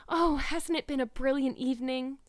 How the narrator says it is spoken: sighed Anne

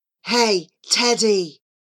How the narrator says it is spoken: Dylan hissed at the boy next to him

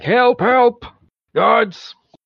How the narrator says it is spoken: the guard in the background is like shouting

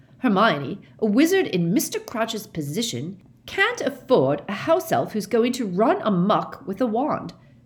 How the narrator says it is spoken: said Percy pompously, recovering himself

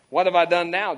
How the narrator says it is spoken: David replied

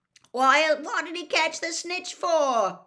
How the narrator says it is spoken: Wrong bellowed

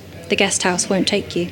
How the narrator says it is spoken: she said, quietly

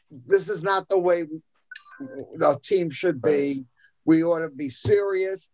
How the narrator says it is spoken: Gibson blew up and said

